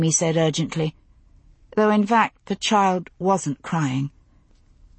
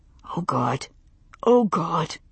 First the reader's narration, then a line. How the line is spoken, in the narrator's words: Roger kept saying it under his breath